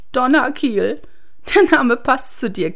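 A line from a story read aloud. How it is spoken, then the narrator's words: Giggling. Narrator (German): kicherte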